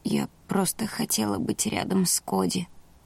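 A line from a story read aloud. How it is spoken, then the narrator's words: Barely audible. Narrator (Russian): сказала я еле слышно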